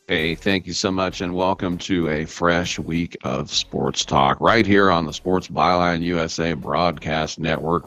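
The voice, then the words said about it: Unusually deep voice. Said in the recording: “My voice sounds a little bit deep this morning.”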